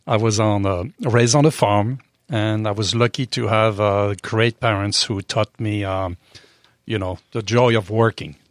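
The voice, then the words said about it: French accent. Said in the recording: “I was raised in France, obviously by the accent.”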